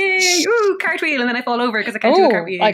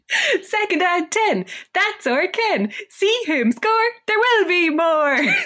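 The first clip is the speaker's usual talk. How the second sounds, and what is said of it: Peppy cheerleader voice. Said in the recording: “putting on my best cheerleader voice”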